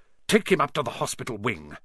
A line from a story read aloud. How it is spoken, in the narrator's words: Snape spat at Seamus